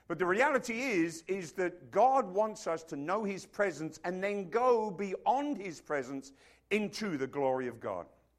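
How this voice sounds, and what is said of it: Funny accent, originally London, mixed. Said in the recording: “what kind of funny accent is that? ... It is a funny accent. ... It's originally from London ... But it's been sort of turned a few corners since then.”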